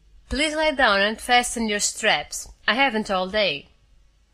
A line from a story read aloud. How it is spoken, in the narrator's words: the Mentorian said irritably